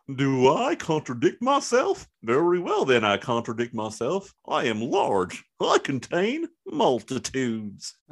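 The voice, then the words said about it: Goofy Walt Whitman impression. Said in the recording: “do it in your Whitman voice ... That was goofy ... That's how Walt Whitman spoke”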